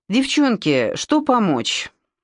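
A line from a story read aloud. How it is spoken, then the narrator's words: Tired question. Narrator (Russian): Симочка устало спросила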